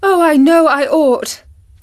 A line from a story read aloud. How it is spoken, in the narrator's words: cried